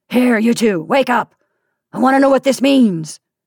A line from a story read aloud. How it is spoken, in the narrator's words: somebody saying in a very harsh, gruff voice